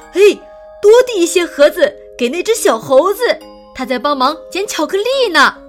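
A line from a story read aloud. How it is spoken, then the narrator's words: Loud shout. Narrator (Chinese): 有人看见了，高声喊起来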